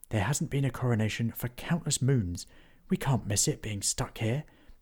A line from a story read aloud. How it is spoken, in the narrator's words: muttered Mulch